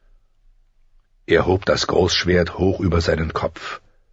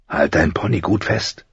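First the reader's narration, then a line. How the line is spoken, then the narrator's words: Man whispering. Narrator (German): flüsterte er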